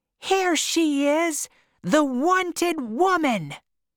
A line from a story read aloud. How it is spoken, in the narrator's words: Madame Spinella shouted